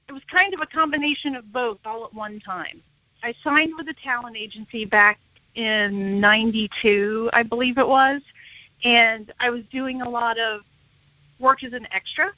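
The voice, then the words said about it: Midwestern American twang. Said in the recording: “I have a Midwestern twang”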